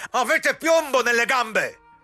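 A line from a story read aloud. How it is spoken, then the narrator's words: Shouting. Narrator (Italian): gridò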